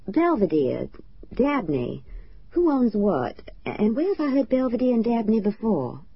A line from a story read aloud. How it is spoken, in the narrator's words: Tish laughed